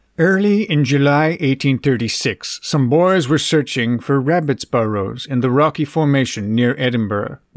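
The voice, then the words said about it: Orson Welles impression, somewhat Dr. Evil. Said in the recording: “do an impression of Maurice LaMarche doing an impression of Orson Welles ... it's going to come out a little bit Dr. Evil”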